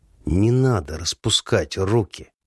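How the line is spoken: Hissed through clenched teeth. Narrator (Russian): сквозь зубы шиплю

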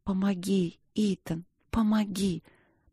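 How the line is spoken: Whisper. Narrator (Russian): прошептала я

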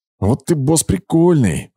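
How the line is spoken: Angry hiss. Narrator (Russian): злобно прошипела Герда

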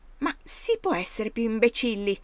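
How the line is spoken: Angry boy exclaiming. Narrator (Italian): esclamò il ragazzo pestando i piedi dalla rabbia

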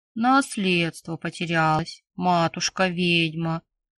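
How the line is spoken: Deep booming bass. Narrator (Russian): Прогудел он низким басом

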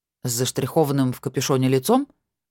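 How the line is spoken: Scoffing. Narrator (Russian): хмыкнул

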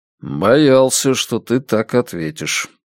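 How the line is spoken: Gloomy. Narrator (Russian): мрачно сказал Страйк

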